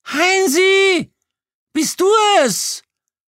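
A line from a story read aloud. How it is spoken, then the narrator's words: Shrill shriek. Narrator (German): kreischte die Muschel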